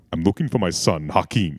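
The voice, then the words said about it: Deep bassy James Earl Jones impression. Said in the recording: “James Earl Jones... it's so bassy, it's just getting it down there... I have a very deep voice... Sounds a lot like I ate James Earl Jones”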